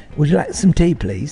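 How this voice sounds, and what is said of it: Put-on British accent. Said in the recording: “I want to hear ... British accent.”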